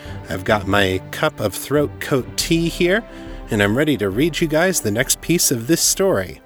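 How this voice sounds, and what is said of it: Congested voice from a cold. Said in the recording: “I've got a little bit of a cold this week. I don't know if you can tell or not”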